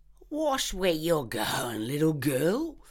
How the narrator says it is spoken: slurred the man

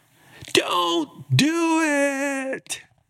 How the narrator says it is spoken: They started screaming

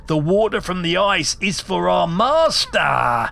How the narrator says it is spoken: he shrieked

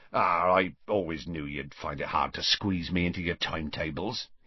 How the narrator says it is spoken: he said gruffly

